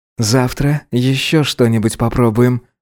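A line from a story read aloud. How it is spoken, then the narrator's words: Contented purr. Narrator (Russian): промурлыкал он довольно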